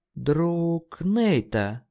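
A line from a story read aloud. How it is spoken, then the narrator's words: Drawling. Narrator (Russian): протянула она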